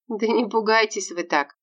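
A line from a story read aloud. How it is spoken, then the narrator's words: Laughing. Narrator (Russian): рассмеялась Варвара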